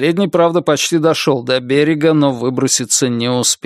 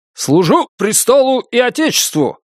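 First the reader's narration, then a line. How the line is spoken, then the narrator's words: Cheerful barking in unison. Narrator (Russian): дружно рявкнули офицеры, чьи лица расцвели улыбками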